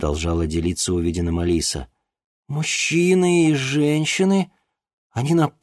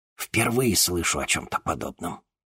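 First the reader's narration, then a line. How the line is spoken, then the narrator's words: Whisper. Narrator (Russian): прошептал Арбогаст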